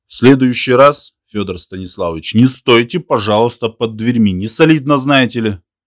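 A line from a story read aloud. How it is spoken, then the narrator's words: Said angrily. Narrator (Russian): Ломихин зло сказал ему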